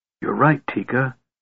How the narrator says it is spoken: Tass whispered

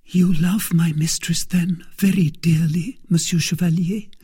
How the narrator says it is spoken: said she

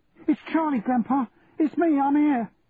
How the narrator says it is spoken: I cried

